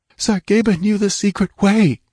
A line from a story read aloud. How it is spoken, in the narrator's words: she gasped